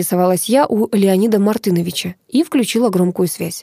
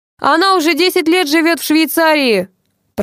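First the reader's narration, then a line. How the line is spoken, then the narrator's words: Thundering over phone. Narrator (Russian): прогремела из трубки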